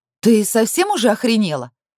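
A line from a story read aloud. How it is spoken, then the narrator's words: Rude barking shout. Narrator (Russian): Непочтительно гаркнула на свою родительницу именинница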